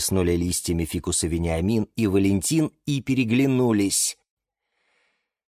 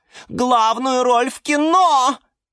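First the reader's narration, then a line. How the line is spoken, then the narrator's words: Shrieking. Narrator (Russian): визжала орхидея Галатея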